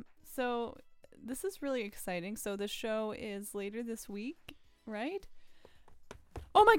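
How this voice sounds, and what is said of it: Usual voice. Nothing is said of it.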